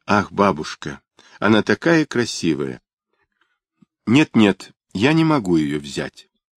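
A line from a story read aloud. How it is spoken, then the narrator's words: Pleased murmur. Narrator (Russian): Недда зарделась от удовольствия и пробормотала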